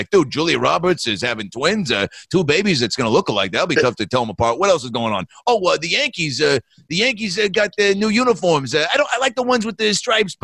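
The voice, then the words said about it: Impression of Tony Danza. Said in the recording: “his impression ... Danza's monologue”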